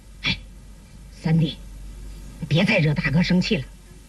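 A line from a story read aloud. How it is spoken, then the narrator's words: Lowered voice. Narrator (Chinese): 压低了嗓门说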